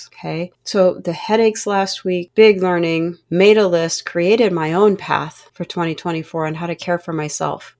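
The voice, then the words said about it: Slightly strained, rough voice. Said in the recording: “If you can hear it in my voice, I'm a little dehydrated... trying to find my voice”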